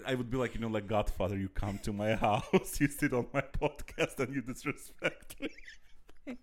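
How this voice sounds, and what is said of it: Put-on Indian accent, slight. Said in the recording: “he started with an Indian accent ... he did a little bit of Indian accent”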